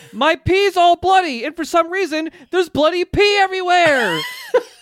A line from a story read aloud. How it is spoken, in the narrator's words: he shouts